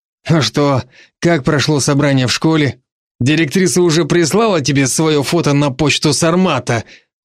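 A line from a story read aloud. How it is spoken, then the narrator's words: Ironic snort. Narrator (Russian): Поляков иронично хмыкнул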